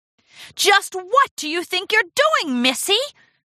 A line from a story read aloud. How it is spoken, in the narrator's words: Rarity screeched